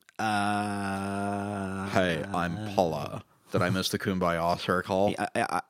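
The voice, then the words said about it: Daria-style character impression voice. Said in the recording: “I don't know what accent that is, but I kind of dig it ... It sounds like you're doing a Daria impression.”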